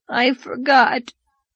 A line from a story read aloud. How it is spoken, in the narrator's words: whimpered